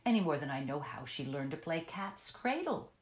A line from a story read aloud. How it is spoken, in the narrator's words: the secretary retorted testily